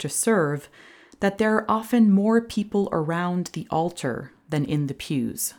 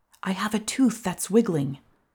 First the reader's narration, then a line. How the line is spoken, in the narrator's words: whispered